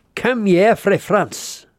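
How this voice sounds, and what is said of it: Weak attempt at Scottish accent. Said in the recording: “Only in a Scottish accent. ... Wasn't that Scottish? Well, not Scottish enough for you.”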